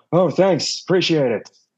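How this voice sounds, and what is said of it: Imitates another person's voice. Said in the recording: “my Keanu Reeves impression”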